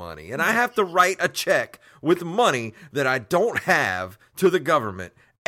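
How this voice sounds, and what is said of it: Usual voice. Nothing is said of it.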